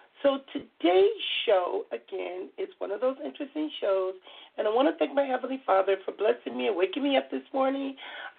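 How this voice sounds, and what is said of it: Soft, hoarse voice. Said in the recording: “I'm going to try to use my soft, sexy voice because I've been talking for loud for so long till I am still kind of hoarse”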